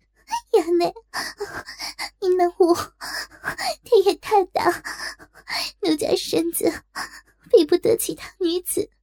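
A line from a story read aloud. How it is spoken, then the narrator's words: Tearful, ashamed pleading. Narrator (Chinese): 他泪蒙双眼 羞不可当，只得哭泣告饶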